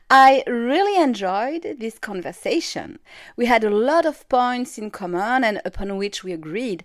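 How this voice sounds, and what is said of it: Non-native accented English. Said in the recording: “you may even laugh a little bit with my English and accent”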